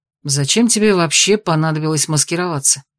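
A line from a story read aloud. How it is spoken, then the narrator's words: Plain. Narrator (Russian): спросил Итан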